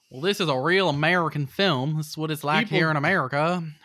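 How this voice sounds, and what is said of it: Weak put-on North Carolinian accent. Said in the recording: “Did not do my best North Carolinian accent.”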